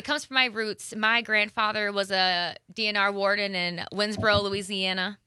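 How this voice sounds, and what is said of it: Southern American accent. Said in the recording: “Does your accent come out more when you're talking about being from there? ... when you started speaking with your southern accent.”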